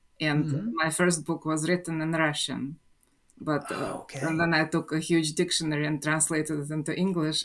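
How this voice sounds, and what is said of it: Russian accent in English. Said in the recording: “you probably hear the accent right away ... I was born in Russia ... the accent is still here and probably will always stay”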